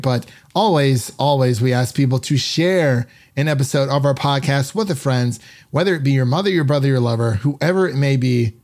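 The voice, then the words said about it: Slightly raspy voice. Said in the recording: “My voice has been a bit raspy”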